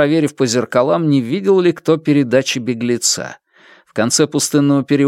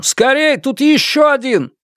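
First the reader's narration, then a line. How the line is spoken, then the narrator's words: Shouted. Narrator (Russian): Кто-то крикнул санитарам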